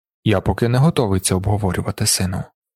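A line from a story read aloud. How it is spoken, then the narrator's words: Quiet. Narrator (Ukrainian): тихо сказав Далінар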